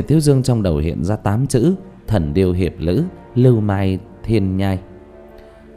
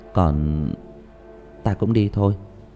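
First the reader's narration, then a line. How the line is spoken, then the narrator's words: Muttering. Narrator (Vietnamese): lẩm bẩm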